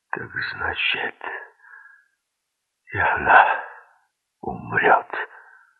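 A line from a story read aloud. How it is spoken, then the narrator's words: Groaning. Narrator (Russian): застонал Герман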